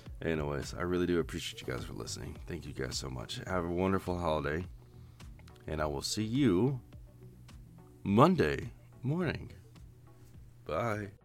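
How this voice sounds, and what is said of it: Rough, messed-up voice. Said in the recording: “I've woken up at 5 in the morning to do this, and my voice is all sorts of messed up.”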